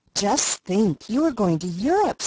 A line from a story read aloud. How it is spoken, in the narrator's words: said Sarah Ray in an awestruck tone